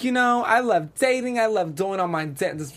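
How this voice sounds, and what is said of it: Put-on New Jersey accent. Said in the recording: “I'm doing my Jersey accent.”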